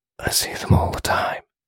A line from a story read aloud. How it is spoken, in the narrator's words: he whispered